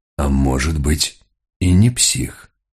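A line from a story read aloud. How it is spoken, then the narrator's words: Muttering. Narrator (Russian): пробормотал Мигре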